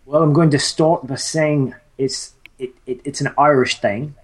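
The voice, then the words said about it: Bad put-on Irish accent. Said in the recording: “That's a terrible Irish accent.”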